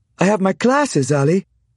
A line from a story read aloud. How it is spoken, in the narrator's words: she half stated, half pleaded